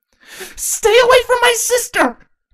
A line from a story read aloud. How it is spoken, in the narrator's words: Quelula screamed at the ponies